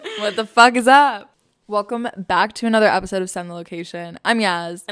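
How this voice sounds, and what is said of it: Drunk-sounding, slurred voice. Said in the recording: “Why do you sound drunk?”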